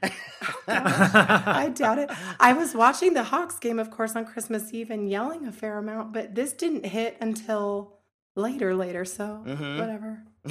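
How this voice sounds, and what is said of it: Hoarse, partly lost voice. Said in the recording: “apologize for my voice. It's tons better today, but I lost it a couple days ago ... Yelling a little bit on Christmas”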